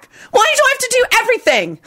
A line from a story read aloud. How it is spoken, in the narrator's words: Dorcas yelled back